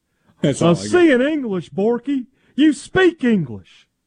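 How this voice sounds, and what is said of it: Hank Hill impression. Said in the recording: “It's a pretty good impression, too... Hank Hill's not, it's not terrible.”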